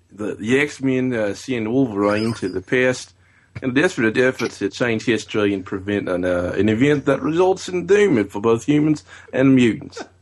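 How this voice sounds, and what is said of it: Put-on Australian accent. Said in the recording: “he's going to do his best Australian accent ... He says he can do it ... That wasn't bad. That wasn't bad ... It was okay.”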